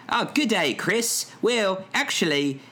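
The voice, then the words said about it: Attempted Australian accent. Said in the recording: “I don't think I can commit to the accent ... an Australian accent is just like a British accent with a little bit more mustard on it”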